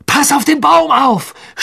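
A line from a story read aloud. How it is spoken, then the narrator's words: Screamed. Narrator (German): schrie Harry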